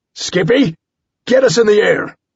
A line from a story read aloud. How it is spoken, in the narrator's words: I shouted